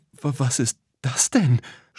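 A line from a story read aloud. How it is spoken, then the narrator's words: Stammered. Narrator (German): stotterte Tom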